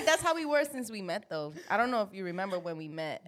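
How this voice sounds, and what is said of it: Slight Puerto Rican accent. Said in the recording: “Why you got a slight accent? ... This don't sound too New York. ... That's Puerto Rican. ... It's definitely the Puerto Rican. ... It's a little accent.”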